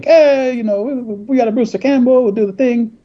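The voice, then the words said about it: Uncanny impression of Dino De Laurentiis. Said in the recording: “It's uncanny. ... Great impression. ... It's really good. ... I thought he was here with us.”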